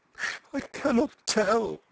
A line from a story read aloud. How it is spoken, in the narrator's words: she said desperately through her sobbing